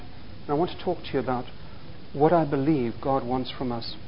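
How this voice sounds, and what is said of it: Speaks with a noticeable accent. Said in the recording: “my accents”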